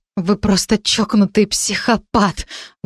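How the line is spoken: Stunned breathless. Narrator (Russian): выдохнула я ошеломленно

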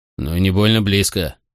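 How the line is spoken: Grumbled. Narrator (Russian): проворчал кто-то

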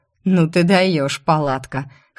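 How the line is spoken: Snorting chuckle. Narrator (Russian): хмыкнул Закери

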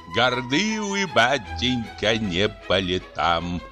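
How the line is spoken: Plain. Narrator (Russian): сказал он мне

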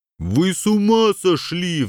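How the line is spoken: Howling. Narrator (Russian): взвыл Жан

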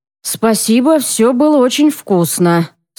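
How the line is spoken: Through gritted teeth, seething. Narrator (Russian): сквозь зубы процеживает Ян, хотя внутри все кипит

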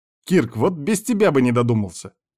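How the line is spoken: Angry, sarcastic. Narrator (Russian): зло сказал Вильхар

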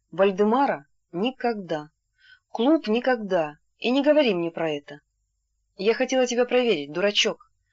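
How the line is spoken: Tender whisper. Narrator (Russian): ласково прошептала она

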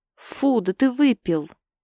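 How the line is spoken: Indignant. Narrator (Russian): Возмущенно кривится

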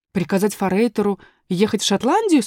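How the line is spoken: Asked. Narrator (Russian): спросила была я

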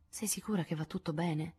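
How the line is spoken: Remorseful whisper. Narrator (Italian): sussurrò Joe, colma di rimorso

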